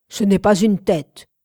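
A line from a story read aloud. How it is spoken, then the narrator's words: Growled. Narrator (French): gronda Rodin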